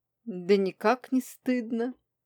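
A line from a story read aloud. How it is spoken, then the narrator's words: Cheeky chuckle. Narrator (Russian): хохотнул наглец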